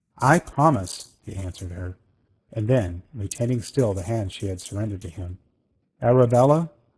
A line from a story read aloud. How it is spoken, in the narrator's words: he said very gently